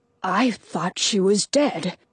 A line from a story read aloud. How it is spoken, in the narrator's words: Arnaldo murmurs